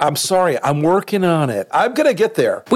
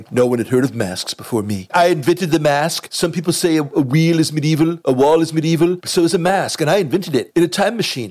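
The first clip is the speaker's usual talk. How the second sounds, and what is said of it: Trump impression. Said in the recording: “Thank you, Alec Baldwin. ... do a Trump impersonation”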